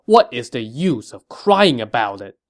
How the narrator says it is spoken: He said angrily

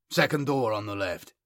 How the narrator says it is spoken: Byzanthus said curtly

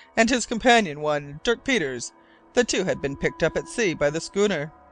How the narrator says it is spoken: exclaimed

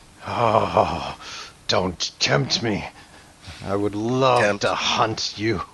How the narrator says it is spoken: sort of growls and he says

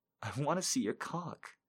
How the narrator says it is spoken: I whine

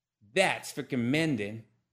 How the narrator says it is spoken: she spat

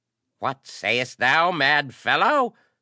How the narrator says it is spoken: screeched the arch-priest, his black eyes bright as knife points

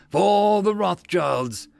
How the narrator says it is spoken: The knights and the men in arms roared as one

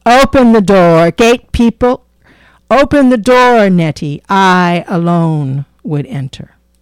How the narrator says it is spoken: knocked loudly and cried in a fierce voice

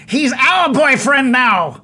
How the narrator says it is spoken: Sklieb yells out towards you

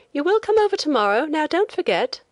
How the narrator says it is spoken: the young woman on the boat called out

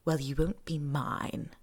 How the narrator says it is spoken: Malfoy rasps

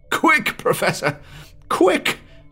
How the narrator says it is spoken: wailed the imploring voice

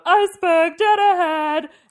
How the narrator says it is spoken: Vivacia screams out

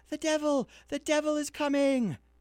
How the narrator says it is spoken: the children ran screaming home, crying out

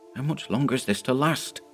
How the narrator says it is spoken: he whispered to Dyson

